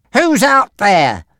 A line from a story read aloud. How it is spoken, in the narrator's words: a voice shouted, getting closer and closer